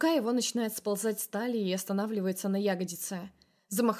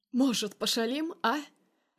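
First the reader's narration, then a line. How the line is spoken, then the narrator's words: Creepy laughing rasp, young man. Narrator (Russian): жутко хохоча хрипит парень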